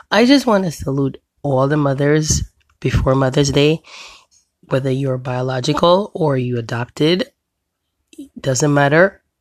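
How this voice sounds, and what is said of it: Sick, under-the-weather voice. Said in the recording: “I sound different, I'm under the weather”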